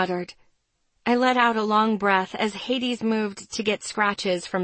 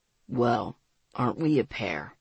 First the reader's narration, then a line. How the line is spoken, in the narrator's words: He grumbled